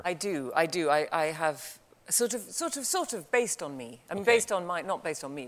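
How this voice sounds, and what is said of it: Natural British accent. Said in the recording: “your natural accent ... surprise Brits ... they're British”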